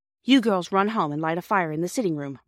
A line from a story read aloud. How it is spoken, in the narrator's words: Mother said